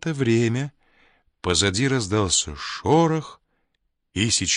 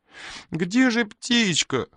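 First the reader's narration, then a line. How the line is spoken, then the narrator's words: Childish whimpering. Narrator (Russian): хныкал он, кривя ротик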